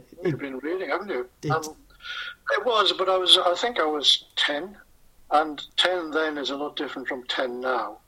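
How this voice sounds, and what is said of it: North East English accent. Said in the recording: “you're from the North East, as you can tell by the accent.”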